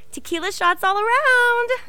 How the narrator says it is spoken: Missy shrieked

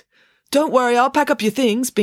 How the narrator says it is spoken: Binky called out to her

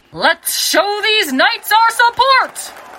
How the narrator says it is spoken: yelled the announcer

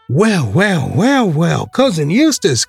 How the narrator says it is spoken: cried all the children at once

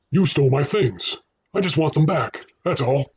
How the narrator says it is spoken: the man barked

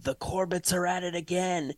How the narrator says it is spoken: Someone shouts in the neighborhood

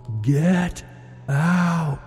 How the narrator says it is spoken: shouted at it, deep and loud

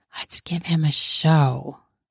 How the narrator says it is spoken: I whispered

